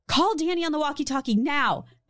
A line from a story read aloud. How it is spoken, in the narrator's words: Beth urgently called out